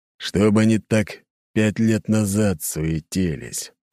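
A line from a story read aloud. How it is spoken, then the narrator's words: Grumbling. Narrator (Russian): проворчал Аршавин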